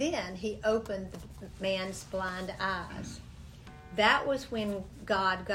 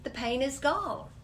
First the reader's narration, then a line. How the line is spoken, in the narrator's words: she exclaimed